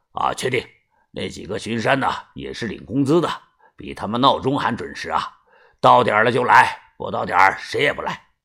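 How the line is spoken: Gruff voice. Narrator (Chinese): 另一个人呀，声音有些粗，他说道

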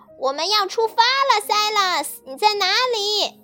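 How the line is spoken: Angry shout. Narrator (Chinese): 卡萨夫人生气的喊道

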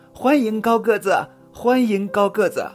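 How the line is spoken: Children's happy cheering. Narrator (Chinese): 小朋友们高兴的拍着手喊

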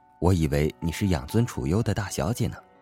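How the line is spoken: Murmuring to himself. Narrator (Chinese): 他喃喃自语

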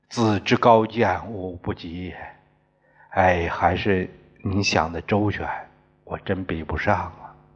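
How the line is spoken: Sighing. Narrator (Chinese): 显伯叹了口气

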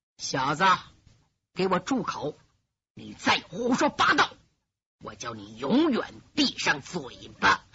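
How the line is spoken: Quiet but clear. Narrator (Chinese): 声音不大

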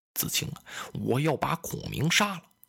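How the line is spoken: Lowered voice. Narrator (Chinese): 公瑾这才压低了声音

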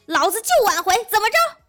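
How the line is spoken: Aggressive roar. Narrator (Chinese): 先发制人 大吼

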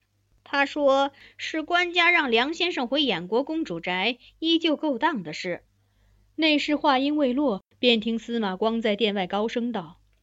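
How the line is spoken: Soft voice. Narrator (Chinese): 内侍轻声道

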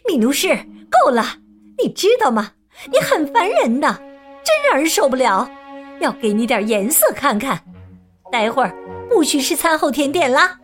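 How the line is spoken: Shouting. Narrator (Chinese): 对他大喊

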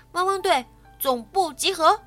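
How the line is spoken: Calling out. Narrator (Chinese): 莱德呼叫狗狗们

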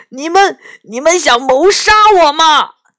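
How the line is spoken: Loud yell. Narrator (Chinese): 元宝大叫一声

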